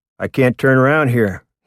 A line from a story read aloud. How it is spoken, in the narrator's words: he said